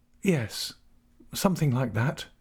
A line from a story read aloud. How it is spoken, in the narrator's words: murmured she